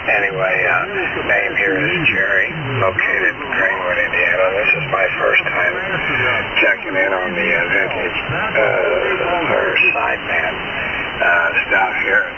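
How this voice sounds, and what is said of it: Hoarse, laryngitic voice. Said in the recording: “Got a bit of laryngitis here this morning”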